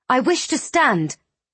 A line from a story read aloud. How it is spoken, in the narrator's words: she snapped